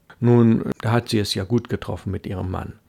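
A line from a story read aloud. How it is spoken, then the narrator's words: Laughing. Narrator (German): lachte Van Geften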